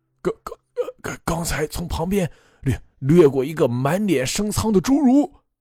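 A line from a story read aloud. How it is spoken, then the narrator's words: Terrified stammering. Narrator (Chinese): 陈老伯已经吓得瘫倒在地上 他才结结巴巴道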